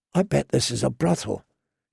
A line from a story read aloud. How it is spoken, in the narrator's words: she whispered to Gendry